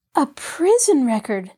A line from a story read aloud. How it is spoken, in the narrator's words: Nancy exclaimed